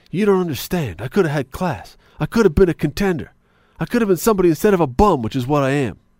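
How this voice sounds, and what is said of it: Imitates another person's voice. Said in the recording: “my Marlon Brando impression”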